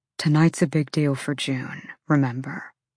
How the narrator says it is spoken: Hunt murmured, lips quirking upward

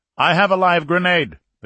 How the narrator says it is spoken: the captain said loudly

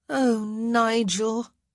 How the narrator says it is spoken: the girl said, sighing deeply

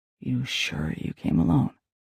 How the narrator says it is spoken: He whispered

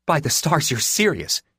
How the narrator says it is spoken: she snapped

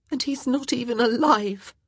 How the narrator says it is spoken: Her voice broke as she finished with

